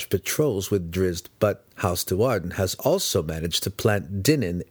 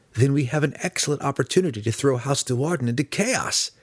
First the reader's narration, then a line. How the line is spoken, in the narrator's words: Alton cried